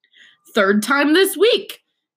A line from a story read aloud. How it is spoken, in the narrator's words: he roared across the table